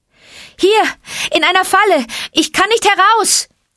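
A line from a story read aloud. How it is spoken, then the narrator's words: Calling out. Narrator (German): rief Mowgli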